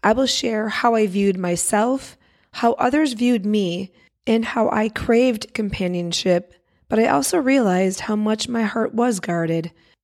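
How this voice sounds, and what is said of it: Hoarse, crackly voice. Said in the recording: “my voice is a little off ... I have had laryngitis and a dry cough that just won't go away ... my crackly voice”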